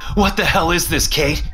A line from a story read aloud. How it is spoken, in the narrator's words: I shout at her